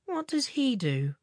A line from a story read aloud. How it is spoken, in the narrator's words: asked Eric wearily